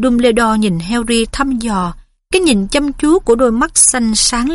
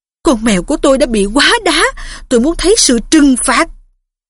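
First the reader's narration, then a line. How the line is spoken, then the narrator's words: Furious hiss. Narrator (Vietnamese): Thầy Phiết cũng vậy, thầy rít lên, đôi mắt nảy lửa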